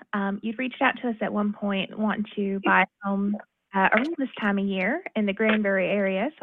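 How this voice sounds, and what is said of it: Southern American accent. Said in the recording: “these two both have a Southern accent.”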